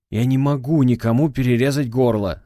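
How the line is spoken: Desperate shout. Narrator (Russian): закричал с отчаянием в голосе Валдаев

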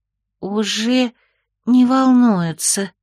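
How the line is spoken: Slightly guilty sigh. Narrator (Russian): чуть виновато вздохнуло немыслимое существо

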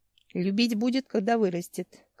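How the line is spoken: Wolf's half grumble. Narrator (Russian): как бы проворчал волк

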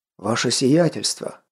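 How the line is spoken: Breathless exclamation. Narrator (Russian): выдохнул

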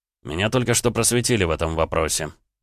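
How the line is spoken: Joyless snort. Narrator (Russian): невесело хмыкнул Роман

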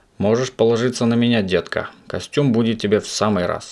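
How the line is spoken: Angry retort. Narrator (Russian): сердито возразил продавец

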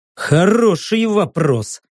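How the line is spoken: Grumbled. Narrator (Russian): проворчал я

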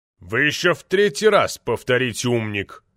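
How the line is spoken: Roar. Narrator (Russian): взревел

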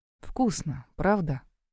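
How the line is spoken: Purring. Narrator (Russian): промурлыкал Гроув

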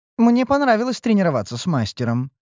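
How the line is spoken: Snide, mocking remark. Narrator (Russian): ехидно подметила ушастая гадина

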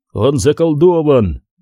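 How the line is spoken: Shouting. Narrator (Russian): закричал Корум

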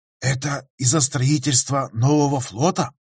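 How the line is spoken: Loud conspiratorial whisper. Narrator (Russian): Громким шепотом, намекающим на то, что и он не чужд секретности, хотя и плохо осознает, что это такое, спросил Лоик

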